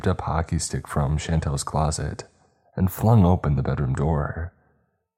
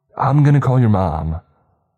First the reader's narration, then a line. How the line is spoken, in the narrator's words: Deborah shouted from the hallway